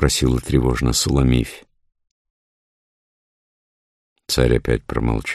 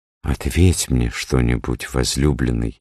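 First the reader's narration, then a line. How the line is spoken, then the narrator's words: Timid pleading. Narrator (Russian): робко попросила Суламифь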